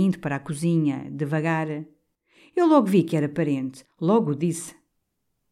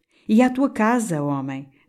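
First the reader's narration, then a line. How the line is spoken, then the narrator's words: Plain. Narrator (Portuguese): disse Sebastião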